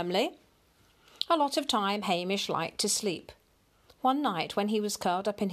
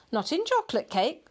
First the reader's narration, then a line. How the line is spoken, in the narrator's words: said Mrs